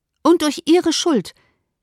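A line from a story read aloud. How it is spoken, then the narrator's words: Emphatic exclamation. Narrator (German): rief Elizabeth mit Nachdruck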